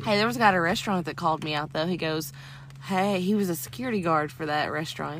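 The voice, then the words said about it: Southern American accent. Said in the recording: “are you from Tennessee or Texas? ... your accent”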